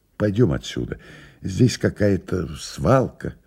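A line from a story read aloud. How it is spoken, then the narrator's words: Quiet. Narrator (Russian): тихо сказал Илья Андреевич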